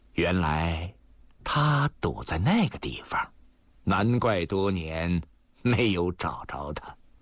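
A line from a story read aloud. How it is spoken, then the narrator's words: Cold sneer. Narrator (Chinese): 老人……冷笑道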